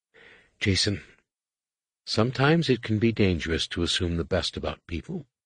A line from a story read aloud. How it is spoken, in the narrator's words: said quietly